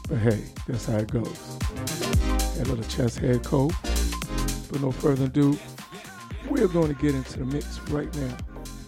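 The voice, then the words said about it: Raspy, partly lost voice. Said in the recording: “losing my voice. ... Still a little raspy.”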